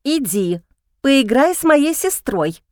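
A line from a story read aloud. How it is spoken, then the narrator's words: Angry hiss. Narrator (Russian): шипит злобно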